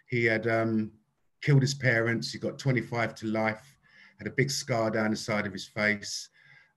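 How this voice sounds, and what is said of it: British accent. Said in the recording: “he loved my accent. He thought I was really funny ... I'm from the UK.”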